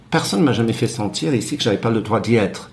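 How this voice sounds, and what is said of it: Foreign accent speaking French. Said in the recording (French): “J'ai un accent, les gens savent que je viens d'ailleurs.”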